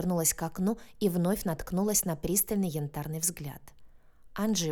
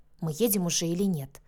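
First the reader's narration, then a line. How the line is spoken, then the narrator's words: Grumbling, hiding confusion. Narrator (Russian): буркнула я, пытаясь за недовольством скрыть смятение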